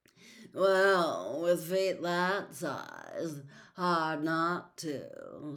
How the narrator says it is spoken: said a drawling voice

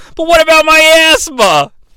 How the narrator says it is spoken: yell

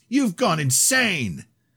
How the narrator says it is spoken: shrieks

